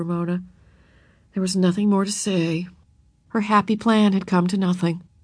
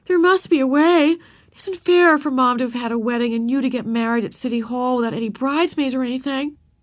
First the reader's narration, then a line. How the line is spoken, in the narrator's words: wailed Beezus